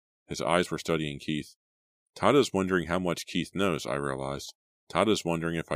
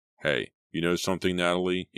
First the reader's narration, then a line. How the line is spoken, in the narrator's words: He called, his voice tense, emotional